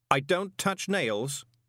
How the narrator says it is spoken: said Dave sharply

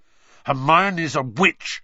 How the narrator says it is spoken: Harry snarled

